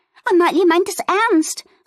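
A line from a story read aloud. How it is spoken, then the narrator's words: Excited call. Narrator (German): rief Fiona aufgeregt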